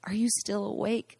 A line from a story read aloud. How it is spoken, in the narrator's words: I whispered